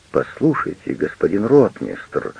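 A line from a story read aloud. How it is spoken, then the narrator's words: Pleading voice. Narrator (Russian): умоляющим голосом произносит кто-то за соседним столиком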